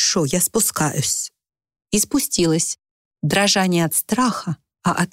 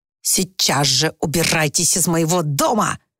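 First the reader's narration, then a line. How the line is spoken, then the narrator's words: Hiss. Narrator (Russian): прошипел Уимис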